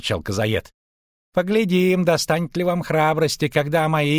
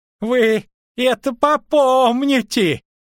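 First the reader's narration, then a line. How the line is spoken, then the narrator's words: Shouting. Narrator (Russian): крикнул он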